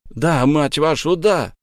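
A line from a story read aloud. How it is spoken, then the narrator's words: Joyful-angry shout over crowd. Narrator (Russian): радостно злой крик пронесся по стадиону, заглушая рев трибун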